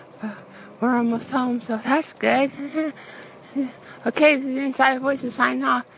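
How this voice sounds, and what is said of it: Tired, out of breath. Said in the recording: “we're a little tired right now, out of breath”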